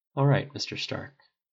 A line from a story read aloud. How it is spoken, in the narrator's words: he said softly